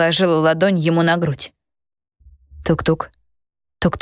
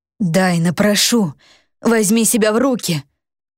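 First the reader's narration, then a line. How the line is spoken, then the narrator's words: Hoarse and breathless. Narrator (Russian): Хрипел он, задыхаясь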